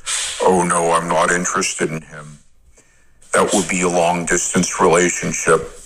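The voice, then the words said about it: Deep-voiced imitation of a woman. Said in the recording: “This girl has this deep, deep voice... I love his impersonation.”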